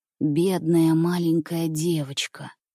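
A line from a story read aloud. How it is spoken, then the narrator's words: Whispered. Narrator (Russian): прошептал Андрюша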